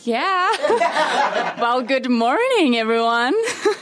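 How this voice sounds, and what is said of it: Fair put-on American accent. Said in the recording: “I would say American accent. ... My American accent. ... Hey, that's not too bad. That's not too bad.”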